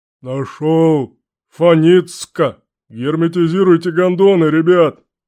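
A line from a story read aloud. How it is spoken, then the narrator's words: Hoarse voice over headphones. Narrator (Russian): раздался в наушниках сиплый голос кабана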